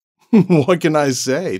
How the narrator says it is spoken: David laughed

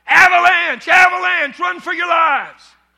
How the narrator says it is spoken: he shouts

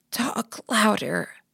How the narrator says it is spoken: I said, my voice a croak

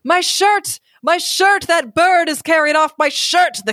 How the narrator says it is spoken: the count is yelling

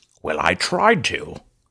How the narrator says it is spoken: said Mega Man wearily

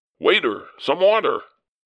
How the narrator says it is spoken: with much formality called out

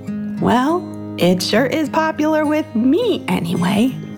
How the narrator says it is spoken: laughed Tom

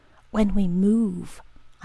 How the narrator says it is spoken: whispered

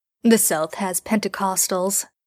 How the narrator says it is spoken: Dean laughs

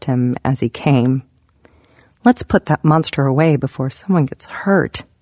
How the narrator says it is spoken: I purred

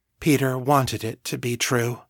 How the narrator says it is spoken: they said quietly

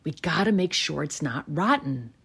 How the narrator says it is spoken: he whispers to the kids huddled around

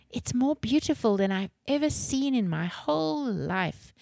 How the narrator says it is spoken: she exclaimed dreamily

